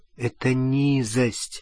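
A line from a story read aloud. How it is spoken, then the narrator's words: Quiet speech. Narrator (Russian): тихо сказала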